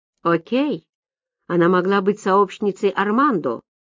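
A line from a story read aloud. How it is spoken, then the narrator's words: Grumbling. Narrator (Russian): проворчал инспектор Квин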